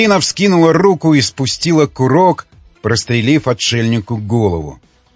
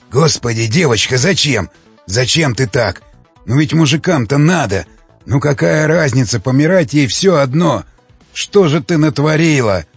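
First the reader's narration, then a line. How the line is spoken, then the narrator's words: Muttered. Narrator (Russian): Бормотал Кожевников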